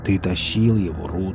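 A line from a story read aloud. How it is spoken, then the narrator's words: Muttering. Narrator (Russian): пробормотал Велес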